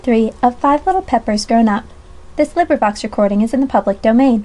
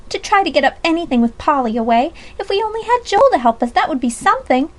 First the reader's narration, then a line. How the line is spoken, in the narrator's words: cried Alexia Reese